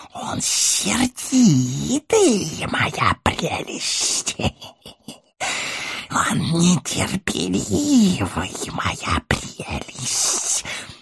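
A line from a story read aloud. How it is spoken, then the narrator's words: Hissing. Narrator (Russian): шипел Горлум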